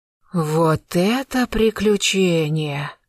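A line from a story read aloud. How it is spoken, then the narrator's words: Envious sigh. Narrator (Russian): с завистью вздохнула Марья Дмитриевна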